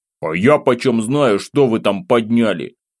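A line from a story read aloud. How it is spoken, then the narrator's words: Grumbling. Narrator (Russian): Продолжил я ворчать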